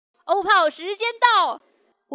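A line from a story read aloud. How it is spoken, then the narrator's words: Sudden scream. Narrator (Chinese): 突然一个室友尖叫了一句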